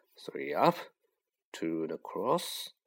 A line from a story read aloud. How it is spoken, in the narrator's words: he muttered